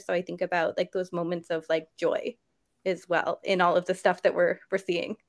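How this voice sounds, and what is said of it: Choked-up, emotional voice. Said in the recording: “I'm getting a little choked up talking about it”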